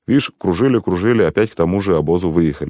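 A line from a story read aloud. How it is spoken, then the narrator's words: Displeased coachman. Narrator (Russian): сказал мой ямщик недовольным тоном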